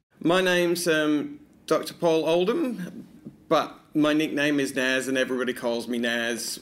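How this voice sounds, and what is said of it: Northern English Manchester accent. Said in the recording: “that Northern English twang you might have picked up on, well, it comes from the fact that he's originally from Manchester”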